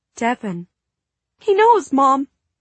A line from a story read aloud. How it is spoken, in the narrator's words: she blurted, eyes panicked